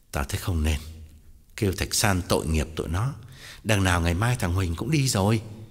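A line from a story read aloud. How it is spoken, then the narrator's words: Sighing, affectedly noble. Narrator (Vietnamese): Tòng thở dài ngắt lời, làm ra vẻ quân tử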